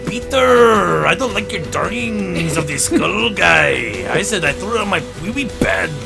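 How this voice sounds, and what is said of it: Put-on Spanish accent. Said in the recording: “Let me try doing it in a Spanish accent.”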